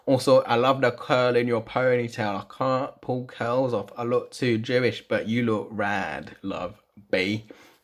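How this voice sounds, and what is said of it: Unconvincing attempt at Essex accent. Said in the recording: “I'm going to do it in an Essex accent ... that was not Essex, was it?”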